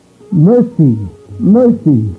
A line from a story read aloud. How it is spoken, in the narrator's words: cried out